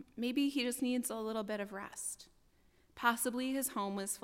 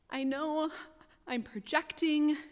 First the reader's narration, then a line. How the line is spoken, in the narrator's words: I said between gasps